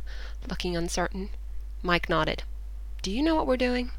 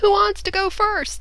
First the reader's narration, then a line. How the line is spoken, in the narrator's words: shouted